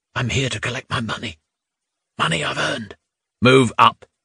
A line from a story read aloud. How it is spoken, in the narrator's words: Hugo said in a whisper